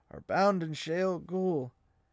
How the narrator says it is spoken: Matt said hoarsely

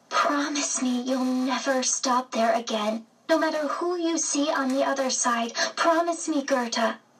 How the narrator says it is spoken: Anna released a gasp of air, then said to me

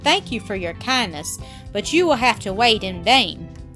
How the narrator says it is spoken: the uncle replied firmly

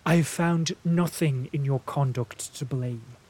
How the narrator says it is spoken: she answered

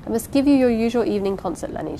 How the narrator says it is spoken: she said

